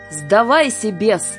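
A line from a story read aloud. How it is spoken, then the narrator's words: Shout. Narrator (Russian): крикнул он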